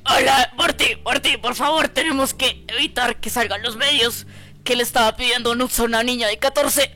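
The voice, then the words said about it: Imitates a cartoon character's voice. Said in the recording (Spanish): “mi mítica imitación de Rick”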